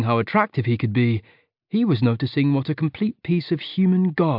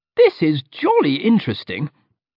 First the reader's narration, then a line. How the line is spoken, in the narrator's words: piped up Alex